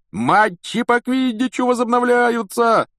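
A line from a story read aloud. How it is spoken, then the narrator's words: Yelling. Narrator (Russian): вопил Вуд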